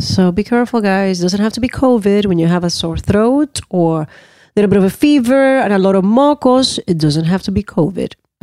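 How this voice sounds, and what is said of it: Sick, slightly funky voice. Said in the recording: “You got me sick... it's bad cold... my voice is going to be a little funky”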